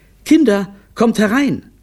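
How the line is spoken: Called out. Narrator (German): rief

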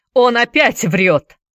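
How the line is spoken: Shouting. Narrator (Russian): закричал Джеймс Купер

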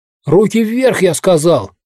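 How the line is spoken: Shouting. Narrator (Russian): кричит Дэйви

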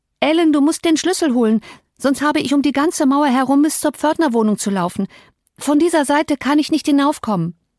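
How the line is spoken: Called out. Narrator (German): Sie rief

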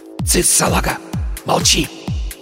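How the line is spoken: Hissing. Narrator (Russian): Прошипел Порошок

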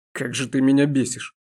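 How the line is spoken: Demon hissing through teeth. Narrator (Russian): сквозь зубы процедил демон

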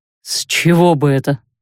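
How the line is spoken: Scoffing snort. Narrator (Russian): хмыкнул капитан

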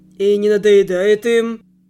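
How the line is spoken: Lazy inquiry. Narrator (Russian): лениво поинтересовался Ферик

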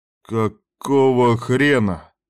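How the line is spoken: Groaning. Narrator (Russian): простонал он, видя Кастера

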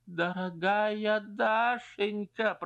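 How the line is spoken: Groaning. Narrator (Russian): простонал Стрижин

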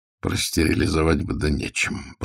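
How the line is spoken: Muttering. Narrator (Russian): пробормотал он

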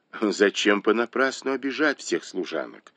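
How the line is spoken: Plain. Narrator (Russian): сказала ему Цзиньгуй

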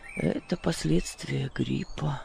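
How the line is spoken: Mumbled. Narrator (Russian): пробормотал

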